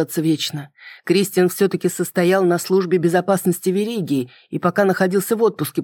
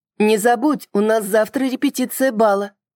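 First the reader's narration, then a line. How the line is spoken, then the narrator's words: Shouted after someone. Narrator (Russian): крикнула мне вслед высунувшаяся Лорна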